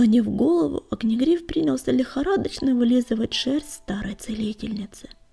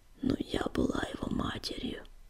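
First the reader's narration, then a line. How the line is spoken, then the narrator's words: Barely audible whisper. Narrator (Russian): еле слышно шептала Щербатая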